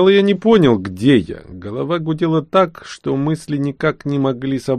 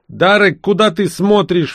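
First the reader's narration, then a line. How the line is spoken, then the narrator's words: Sudden bark. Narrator (Russian): внезапно рявкнул первый говоривший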